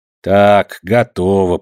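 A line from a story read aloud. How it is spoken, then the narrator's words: Grumbling servant. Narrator (Russian): проворчала служанка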